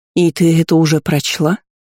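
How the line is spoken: Disbelieving breathless exhale. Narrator (Russian): неверяще выдохнула Дисси

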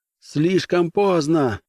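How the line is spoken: Shout. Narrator (Russian): закричал Брен

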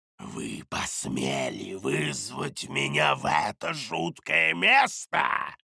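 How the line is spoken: Hissing creature. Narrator (Russian): прошипело существо на прекрасном древнейшарском

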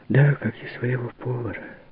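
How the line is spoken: Sighing. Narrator (Russian): вздохнула Марианна

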